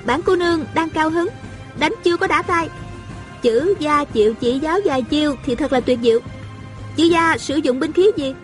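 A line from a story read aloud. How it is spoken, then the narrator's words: Smiling. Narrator (Vietnamese): A Cửu mỉm cười nói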